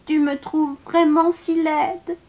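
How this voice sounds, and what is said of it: Small, sad character voice. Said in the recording (French): “avec une petite voix triste”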